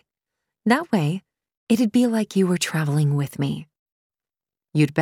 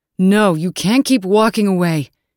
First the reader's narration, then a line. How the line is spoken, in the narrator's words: he shouted